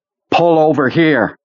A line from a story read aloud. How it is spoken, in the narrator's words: Janice screamed with pain